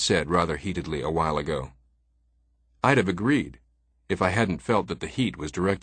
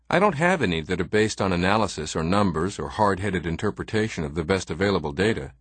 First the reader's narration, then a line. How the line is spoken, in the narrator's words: he said